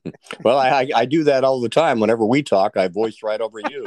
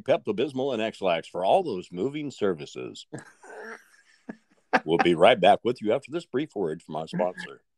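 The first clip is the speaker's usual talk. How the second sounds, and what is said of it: Radio announcer voiceover voice. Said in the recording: “You should do voiceover, man. ... You got that kind of radio voice, man.”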